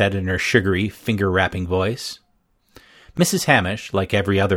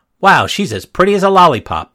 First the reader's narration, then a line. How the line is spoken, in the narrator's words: Antonia said, very loudly